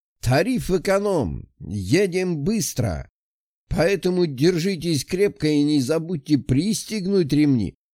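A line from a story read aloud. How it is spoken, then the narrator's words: Cheerful shout. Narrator (Russian): Весело прокричал водила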